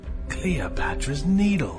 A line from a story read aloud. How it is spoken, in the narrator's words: Ian whispered